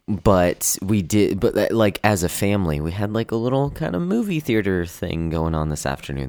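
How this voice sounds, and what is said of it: Groggy voice. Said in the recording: “That's why my voice is so groggy right now”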